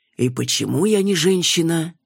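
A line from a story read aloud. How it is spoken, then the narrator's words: Mock sigh. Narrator (Russian): притворно вздохнул Иван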